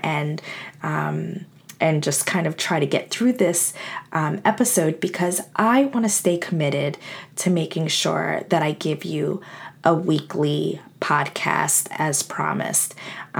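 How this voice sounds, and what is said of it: Crackly, unwell voice. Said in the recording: “I am actually not feeling very well. So my voice is a little crackly”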